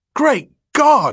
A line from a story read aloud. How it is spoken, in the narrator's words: he exclaimed